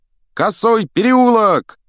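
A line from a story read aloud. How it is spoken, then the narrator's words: Shouted. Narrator (Russian): крикнул Фред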